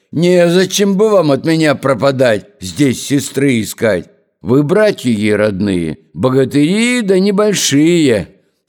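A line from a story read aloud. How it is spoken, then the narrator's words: Whistling and barking shout. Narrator (Russian): свистнул, и гаркнул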